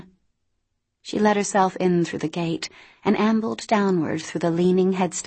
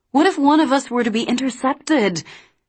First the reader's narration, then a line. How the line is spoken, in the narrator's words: Cam's voice was high and pleading